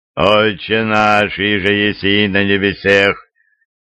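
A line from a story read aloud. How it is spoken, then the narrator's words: Low trained chanting voice. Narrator (Russian): Низким, хорошо поставленным голосом, слегка нараспев, начал читать иеромонах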